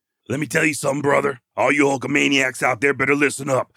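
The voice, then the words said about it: Imitates another person's voice, not very well. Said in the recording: “Not very good at my Hulk Hogan impersonation”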